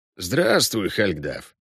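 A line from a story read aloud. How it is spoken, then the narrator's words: Creaky voice. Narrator (Russian): проскрипел Весемир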